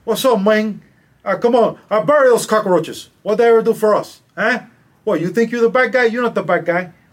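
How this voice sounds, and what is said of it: Put-on Spanglish movie-gangster accent. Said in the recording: “in the Spanglish world, you put the E in front of every S ... he's the one that taught Pacino to speak ... that accent”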